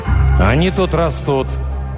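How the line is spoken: Strained growl. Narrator (Russian): прорычал натянуто Руго

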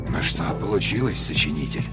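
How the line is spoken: Muttered under breath. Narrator (Russian): пробормотал человек сам себе под нос

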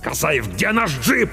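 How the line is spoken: Barking. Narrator (Russian): рявкнул капитан

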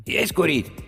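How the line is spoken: Hoarse. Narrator (Russian): хрипло произнес он

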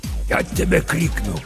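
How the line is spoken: Hissing through teeth. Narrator (Russian): прошипел сквозь зубы папа Сатырос

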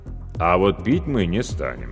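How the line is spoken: Calm, weighty declaration. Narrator (Russian): спокойно и веско заявил Павел Алексеевич

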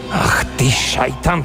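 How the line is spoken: Muttered. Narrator (Russian): пробормотал Радуев

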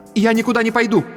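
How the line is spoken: Sharp. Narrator (Russian): резко сказала Антония

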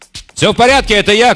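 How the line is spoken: Shouted. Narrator (Russian): крикнул Кисима

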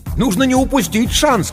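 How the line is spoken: Shouting over phone. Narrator (Russian): кричал в трубку незнакомый голос

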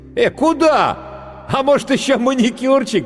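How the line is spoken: Shout then loud laughter. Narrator (Russian): крикнул гример и расхохотался

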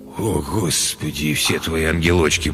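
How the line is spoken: Groaned. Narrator (Russian): простонал Галеску

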